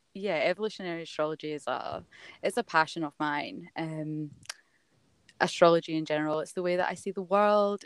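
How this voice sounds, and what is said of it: Scottish accent. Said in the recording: “I'm from Scotland. As you'll notice with my accent.”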